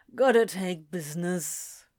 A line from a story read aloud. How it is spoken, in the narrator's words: Anthony grumbled